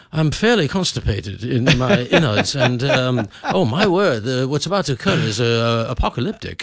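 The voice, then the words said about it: Posh put-on British accent. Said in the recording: “British accent by far. You can say anything in a British ... And you sound like you're in a House of Lords.”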